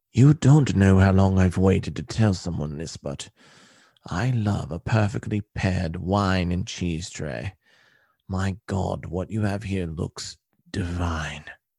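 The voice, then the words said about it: Quiet British accent. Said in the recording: “quietly says in a British accent”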